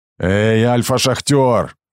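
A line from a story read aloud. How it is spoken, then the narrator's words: Flat, eerie shout. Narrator (Russian): крикнул, и в голосе не было ни злости, ни угрозы, лишь странная, пугающая констатация факта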